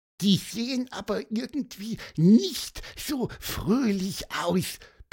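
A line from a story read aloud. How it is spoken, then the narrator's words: Soft squeak. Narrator (German): piepste Pieper leise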